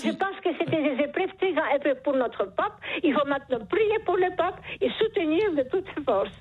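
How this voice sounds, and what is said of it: French with a charming accent. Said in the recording (French): “Vous avez un charmant accent ... ce joli accent”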